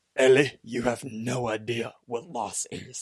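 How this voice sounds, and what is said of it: Poor impression of a character's voice. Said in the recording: “that's a terrible Joel impression.”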